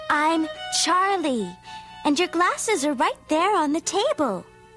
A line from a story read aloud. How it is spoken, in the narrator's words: he'd answer a little less kindly